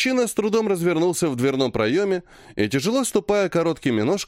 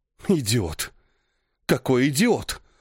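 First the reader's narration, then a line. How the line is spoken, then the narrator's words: Angry hiss. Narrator (Russian): зло прошипела Кассия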